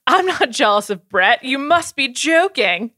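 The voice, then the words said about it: Put-on British accent. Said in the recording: “In his British accent.”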